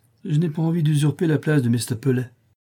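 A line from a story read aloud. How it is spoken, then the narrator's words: Curt reply. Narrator (French): lui répondis-je d'un ton sec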